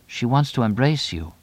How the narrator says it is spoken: Quietly, Laura said

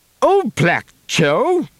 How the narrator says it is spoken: Kriegel spluttered

